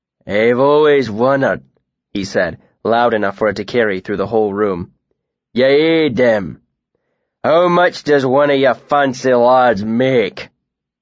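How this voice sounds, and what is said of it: Thick accent, loud character voice. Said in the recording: “the man's thick accent”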